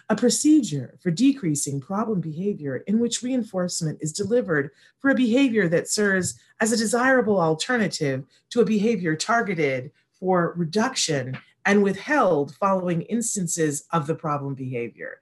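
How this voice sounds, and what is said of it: Elevator voice. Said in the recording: “do the elevator voice.”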